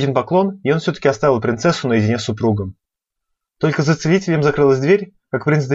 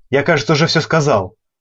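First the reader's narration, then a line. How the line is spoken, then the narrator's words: Roared. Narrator (Russian): проревел Дамиан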